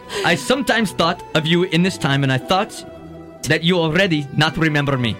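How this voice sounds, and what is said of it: Put-on foreign accent. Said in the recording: “his accent”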